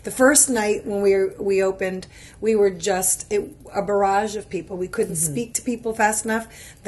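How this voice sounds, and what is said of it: Hoarse voice. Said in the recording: “why my voice is hoarse after all these days”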